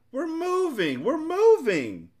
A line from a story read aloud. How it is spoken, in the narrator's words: shouted happily